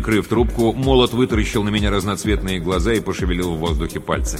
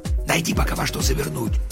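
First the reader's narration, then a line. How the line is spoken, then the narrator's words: Whisper. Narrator (Russian): прошептал он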